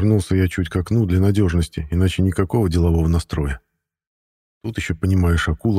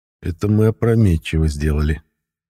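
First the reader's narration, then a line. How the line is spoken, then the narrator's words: Repentant sigh. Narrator (Russian): покаянно вздохнул я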